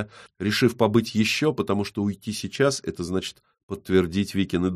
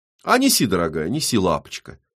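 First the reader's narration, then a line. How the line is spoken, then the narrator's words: Plain. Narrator (Russian): говорит Вика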